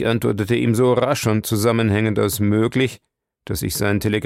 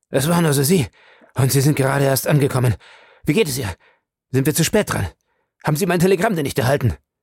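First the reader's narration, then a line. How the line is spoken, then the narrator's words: Breathless, panting call. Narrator (German): rief er keuchend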